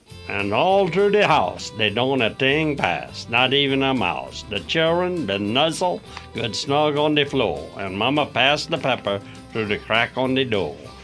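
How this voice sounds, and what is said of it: Cajun French accent. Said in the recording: “reading in their Cajun French accent”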